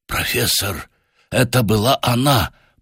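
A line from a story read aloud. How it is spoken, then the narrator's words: Whispered. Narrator (Russian): прошептал он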